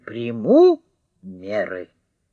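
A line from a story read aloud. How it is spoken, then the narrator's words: Sternly repeated. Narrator (Russian): строго повторил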